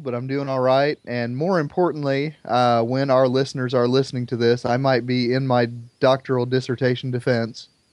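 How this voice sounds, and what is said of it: Voice with a slight cold. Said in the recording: “I've got a little bit of a cold,”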